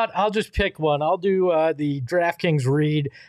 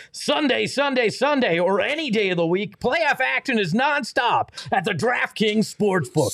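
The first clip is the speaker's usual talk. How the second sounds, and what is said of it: Demolition derby announcer voice. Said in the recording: “as if I'm a derby car announcer, a demolition derby announcer”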